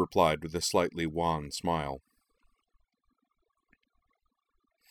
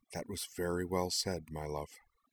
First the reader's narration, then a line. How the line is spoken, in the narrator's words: Anthy leaned toward her and murmured